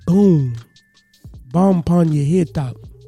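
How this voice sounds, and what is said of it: Poor put-on Jamaican accent. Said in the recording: “I'm bad at using a Jamaican accent”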